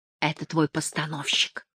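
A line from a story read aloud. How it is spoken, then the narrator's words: Whisper. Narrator (Russian): прошептал он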